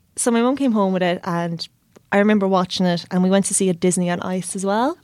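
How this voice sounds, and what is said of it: Irish Tipperary accent, no TH sounds. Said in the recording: “I don't pronounce THs ... I grew up in Tipperary and my accent is still there ... I just didn't pronounce the TH there”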